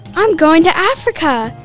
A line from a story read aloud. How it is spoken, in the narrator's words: He shouted